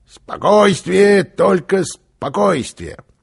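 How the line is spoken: Loud declaration. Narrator (Russian): Карлсон громко произнес

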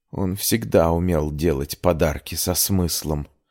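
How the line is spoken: Hoarse angry whisper. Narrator (Russian): сипло прошептала, испытывая сильное желание запустить бутылкой в стену

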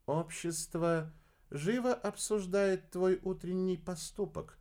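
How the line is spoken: Quiet. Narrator (Russian): негромко произнесла Лаура

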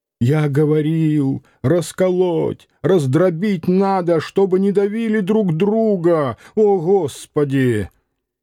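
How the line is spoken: Hoarse shouting. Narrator (Russian): сипло закричал

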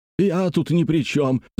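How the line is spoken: Shout. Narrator (Russian): закричал он

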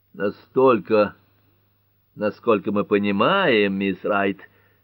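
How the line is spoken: Grim judge inquiring. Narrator (Russian): мрачно осведомился судья Ньюболт

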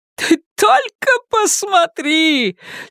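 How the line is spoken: Near-triumphant shout. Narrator (Russian): чуть ли не с триумфом закричала Карла

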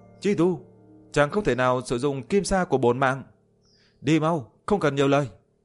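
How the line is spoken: Urgent shout. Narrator (Vietnamese): Liễu Tuyết vội vàng hét lên

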